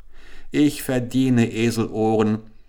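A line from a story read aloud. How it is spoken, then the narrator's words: Exclaimed. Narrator (German): rief er aus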